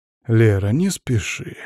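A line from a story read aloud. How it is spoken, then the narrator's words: Soft. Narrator (Russian): мягко произнес я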